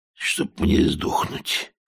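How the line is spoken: Hoarse muttering. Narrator (Russian): хрипло пробормотал он

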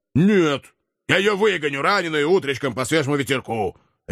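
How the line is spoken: Old man's bark. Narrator (Russian): рявкнул старый наемник

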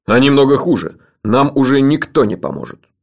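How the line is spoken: Stern. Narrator (Russian): строго сказал Джуфин

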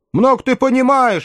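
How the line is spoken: Snapping. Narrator (Russian): огрызнулся Хэл

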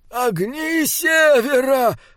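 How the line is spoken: Moaning. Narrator (Russian): простонал Ернауга

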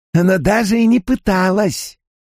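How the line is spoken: Declared. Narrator (Russian): Алвин заявила

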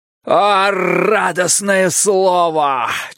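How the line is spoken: Almost shouting. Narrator (Russian): чуть не крикнул Бидвелл

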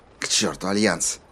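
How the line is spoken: Whisper. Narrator (Russian): прошептала Коралл

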